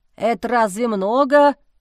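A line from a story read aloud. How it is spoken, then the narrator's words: Snort. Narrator (Russian): фыркнул Леонтий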